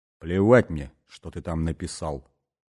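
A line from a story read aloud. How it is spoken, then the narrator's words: Grim, curt. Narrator (Russian): мрачно бросил Бастон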